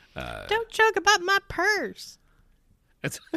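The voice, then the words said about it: Put-on Southern accent. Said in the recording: “Oh my god, the southern accent”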